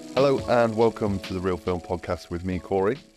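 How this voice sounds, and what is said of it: Slightly raspy voice. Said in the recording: “I sound a bit raspy. A little bit hungover”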